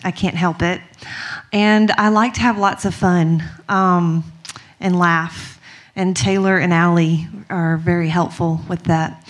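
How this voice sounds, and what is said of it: Strong Mississippi country accent. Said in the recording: “I'm just a girl from Mississippi, so I have a really bad country accent.”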